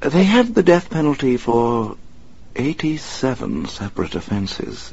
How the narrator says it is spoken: Alfred said quietly

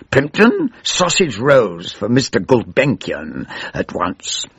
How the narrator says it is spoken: Dame Valerie snarled

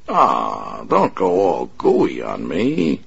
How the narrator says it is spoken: the big man sneered

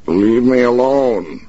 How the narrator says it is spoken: shouted

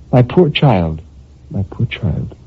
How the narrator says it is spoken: murmured gently

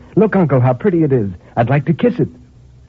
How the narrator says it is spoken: cried in bringing it back in triumph

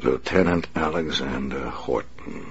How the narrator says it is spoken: the Batman said softly

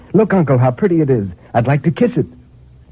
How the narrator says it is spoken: she cried in bringing it back in triumph

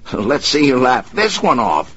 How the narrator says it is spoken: he shouted

